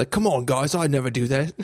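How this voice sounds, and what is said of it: Put-on Australian accent. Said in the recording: “I made him Australian”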